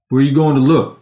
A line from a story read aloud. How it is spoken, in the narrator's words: Jake said